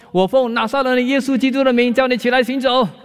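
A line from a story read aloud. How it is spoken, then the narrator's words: Loud shout. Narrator (Chinese): 他对弟弟大声的喊叫说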